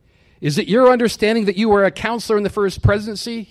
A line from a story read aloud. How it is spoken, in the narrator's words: He asked sharply